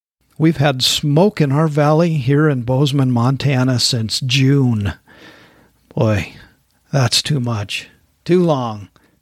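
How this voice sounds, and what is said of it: Hoarse voice. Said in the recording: “my voice is kind of hoarse.”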